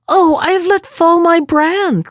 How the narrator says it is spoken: cried she

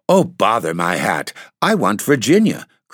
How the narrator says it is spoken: cried the little Duke, laughing

